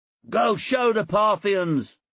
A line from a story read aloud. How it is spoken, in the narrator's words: he cried